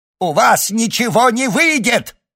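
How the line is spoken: Yell. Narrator (Russian): заорал Той

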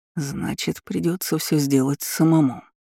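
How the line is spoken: Mutter. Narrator (Russian): пробормотал Рон Деловей

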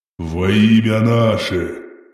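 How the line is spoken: Solemn rumble. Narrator (Russian): торжественно пророкотал

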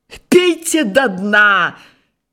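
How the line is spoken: Shout, suppressing laughter. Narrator (Russian): кричит поверенный и отворачивается, чтобы не расхохотаться

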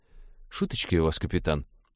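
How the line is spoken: Muttered. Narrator (Russian): пробормотал навигатор

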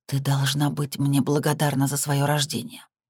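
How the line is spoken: Very quiet, almost inaudible. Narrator (Russian): произносит она совсем тихо, почти не слышно

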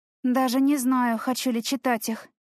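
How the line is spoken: Sighing. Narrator (Russian): вздохнула я

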